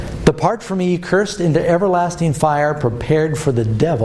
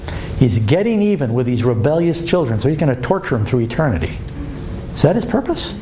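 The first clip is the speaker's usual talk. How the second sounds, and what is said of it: Sarcastic tone. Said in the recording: “I'm being sarcastic.”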